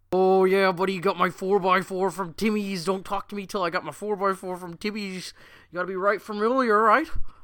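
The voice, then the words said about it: Mixed put-on regional accents. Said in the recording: “every regional accent mixed up into one”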